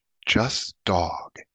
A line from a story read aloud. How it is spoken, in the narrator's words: he said softly under his breath